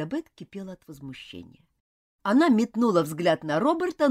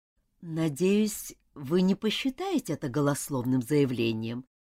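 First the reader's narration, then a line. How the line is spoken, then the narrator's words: Smooth, ingratiating tone. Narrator (Russian): вкрадчиво заговорил Роберт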